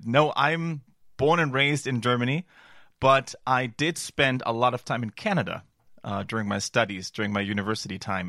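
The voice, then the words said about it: American-sounding English accent. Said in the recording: “you have a very American accent”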